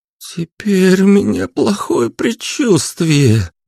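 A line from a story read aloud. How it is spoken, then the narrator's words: Groaning. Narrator (Russian): простонала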